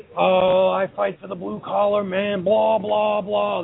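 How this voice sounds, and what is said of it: Impression of the Roughneck. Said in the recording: “Dead on. Spot on impersonation.”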